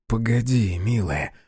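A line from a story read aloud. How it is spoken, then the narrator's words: Whispered. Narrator (Russian): шепнул он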